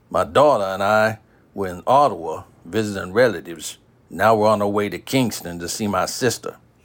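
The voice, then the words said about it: Heavy southern US accent. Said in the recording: “I can't help but notice your accent. ... Dad was raised in Virginia. I moved away for college and never got the heavy southern accent.”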